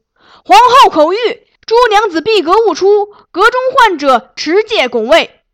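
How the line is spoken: Loud urgent shouting. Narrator (Chinese): 一路大声疾呼

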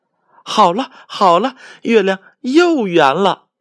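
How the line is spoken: Happy shout. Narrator (Chinese): 小猴子高兴的喊

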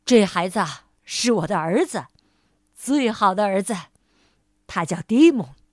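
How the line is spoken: Loud, continuing. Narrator (Chinese): 爸爸大声的继续说

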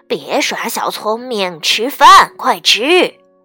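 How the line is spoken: Mother, grumbling mutter. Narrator (Chinese): 妈妈也嘟嘟囔囔地说

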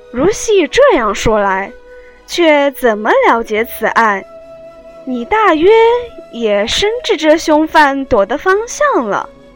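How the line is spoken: Smiling question. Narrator (Chinese): 雨村笑问门子道

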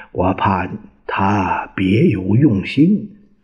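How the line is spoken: Low whisper in ear. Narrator (Chinese): 陈果夫在他耳边低声说

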